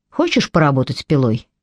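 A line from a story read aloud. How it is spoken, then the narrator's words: Quiet question. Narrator (Russian): негромко спросил Крой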